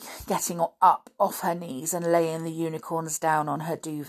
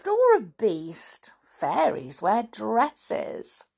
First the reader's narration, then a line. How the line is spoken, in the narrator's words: I laughed